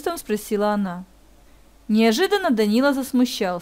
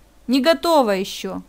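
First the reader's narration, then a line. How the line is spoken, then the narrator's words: Grumbled. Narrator (Russian): пробурчал он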